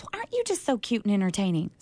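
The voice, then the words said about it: Imitated Southern accent. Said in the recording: “it was a southern accent. You're getting one.”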